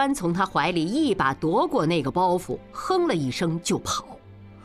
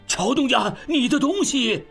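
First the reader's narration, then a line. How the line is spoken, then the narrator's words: Shouting from behind. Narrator (Chinese): 胡管家在后面喊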